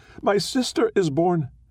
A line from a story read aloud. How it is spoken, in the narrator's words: screaming with joy